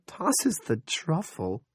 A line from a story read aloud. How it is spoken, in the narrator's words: Linda giggled in spite of her nerves